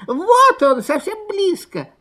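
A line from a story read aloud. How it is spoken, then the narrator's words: Squeaky cubs. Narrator (Russian): запищали лисята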